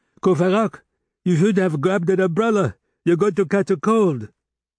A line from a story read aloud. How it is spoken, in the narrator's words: Jolie, who had run to the window, shouted